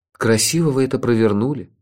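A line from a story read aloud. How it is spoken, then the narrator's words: Envious sigh. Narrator (Russian): завистливо вздохнул я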